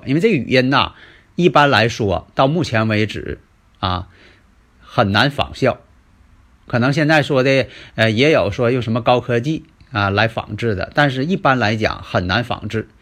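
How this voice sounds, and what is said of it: Mandarin with Northeastern Chinese accent. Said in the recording (Chinese): “东北口音的普通话”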